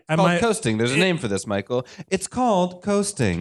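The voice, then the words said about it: Human-interest newscaster voice. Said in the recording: “Breaking news, kids. ... That was the direction I want to take my newscaster voice. I mean, I could do a newscaster voice, but I wanted to do like human interest piece.”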